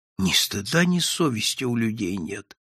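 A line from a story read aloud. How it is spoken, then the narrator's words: Whisper. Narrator (Russian): шептал Прозрачный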